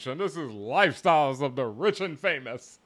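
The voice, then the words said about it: Robin Leach impression. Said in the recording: “terrible Robin Leach impersonation, but, you know, best I can do right now”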